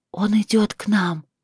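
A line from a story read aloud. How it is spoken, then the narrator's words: Whisper. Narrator (Russian): Она прошептала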